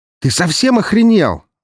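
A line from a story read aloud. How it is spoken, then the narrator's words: Yelling. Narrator (Russian): заорал он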